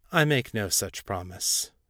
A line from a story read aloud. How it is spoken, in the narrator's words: Baal said evenly